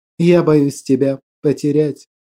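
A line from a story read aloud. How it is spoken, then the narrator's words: Quiet confession. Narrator (Russian): призналась она тихо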